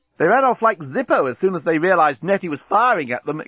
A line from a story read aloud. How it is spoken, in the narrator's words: exclaimed Inchby Wiglet enthusiastically